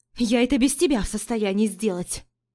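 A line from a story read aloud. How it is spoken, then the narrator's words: Snapping retort. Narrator (Russian): Огрызнулась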